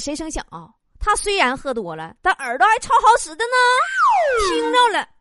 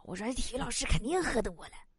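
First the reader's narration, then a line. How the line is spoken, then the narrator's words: Whispering. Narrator (Chinese): 我就搁底下跟我同桌小声说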